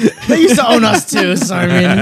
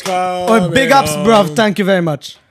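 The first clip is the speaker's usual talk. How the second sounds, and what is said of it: Put-on Jamaican accent. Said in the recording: “That was Jamaican. I don't know why I did Jamaican. That's the wrong accent.”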